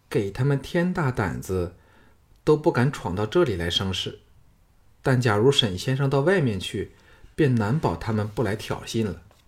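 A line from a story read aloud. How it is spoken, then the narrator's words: Soft gentle voice. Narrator (Chinese): 石素芳柔声说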